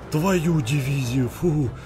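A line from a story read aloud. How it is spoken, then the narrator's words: Trembling breathy exhale. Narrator (Russian): Дрожащим голосом выдохнул Андрей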